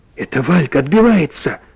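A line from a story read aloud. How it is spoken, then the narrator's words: Hoarse speech. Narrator (Russian): проговорил хрипло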